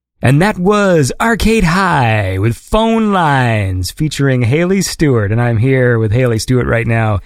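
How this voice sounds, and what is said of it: Announcer-style radio voice. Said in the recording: “My radio voice might be weird”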